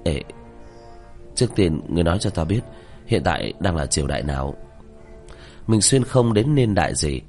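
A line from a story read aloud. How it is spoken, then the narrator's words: Shaky reluctant speech. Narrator (Vietnamese): Diệp Thiếu Dương khóe miệng run rẩy, miễn cưỡng có lệ đang tràn xuống mà nói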